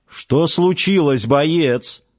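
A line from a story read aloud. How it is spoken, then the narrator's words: Stern question. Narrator (Russian): строго спросил Далестианц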